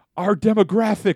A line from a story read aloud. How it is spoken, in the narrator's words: Matt screams as he sees the blood shoot out from under the cart